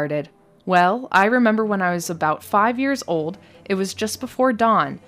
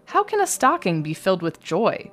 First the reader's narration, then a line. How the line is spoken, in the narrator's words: Patrick asked